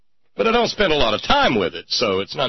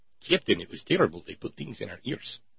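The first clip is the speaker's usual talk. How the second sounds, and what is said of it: Russian accent imitating Chekhov. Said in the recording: “Russian accent... Boris Badenov on Bullwinkle... It's him or Chekhov. That's my two Russian accent models. Boris Badenov and Chekhov... not nearly as good as my hillbilly”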